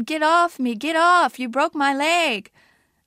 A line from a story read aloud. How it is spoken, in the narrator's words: she cried